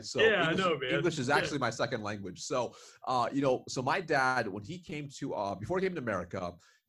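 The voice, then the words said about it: Sounds like he's from Georgia. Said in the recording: “I thought you were from Georgia, man. ... don't be fooled by my accent,”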